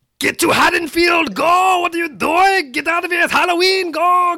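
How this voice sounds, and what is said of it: Yelled Arnold Schwarzenegger impression. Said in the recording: “I can do Arnold ... So apparently, he can only do Arnold when he's yelling.”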